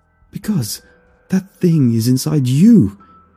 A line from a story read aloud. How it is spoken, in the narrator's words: he cried